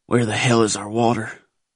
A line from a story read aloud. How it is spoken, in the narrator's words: growled men around me